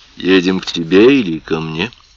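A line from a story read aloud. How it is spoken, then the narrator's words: Soft question. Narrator (Russian): мягко спросил Ларри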